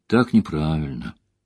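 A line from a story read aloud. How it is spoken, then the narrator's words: Low voice. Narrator (Russian): вполголоса сказал Хурин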